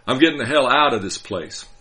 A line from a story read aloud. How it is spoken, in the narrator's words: he shouted over both our engines, then laughed maniacally